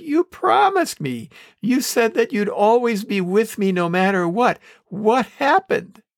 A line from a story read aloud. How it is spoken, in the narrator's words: He ... whined